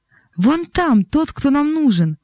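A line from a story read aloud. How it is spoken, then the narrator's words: Exclaiming. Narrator (Russian): воскликнул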